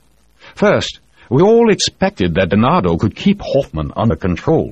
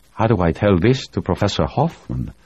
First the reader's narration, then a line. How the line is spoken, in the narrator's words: Grumado asked softly